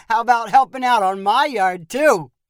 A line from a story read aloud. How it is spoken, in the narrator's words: Sampo asked with a laugh